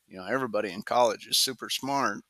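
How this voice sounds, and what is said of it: Sarcastic tone. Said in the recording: “I say that sarcastically.”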